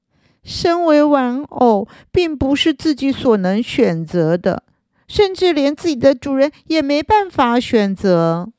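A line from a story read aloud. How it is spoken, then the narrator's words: Long weary sigh. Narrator (Chinese): 小丽叹了一口长长的气，唉，说着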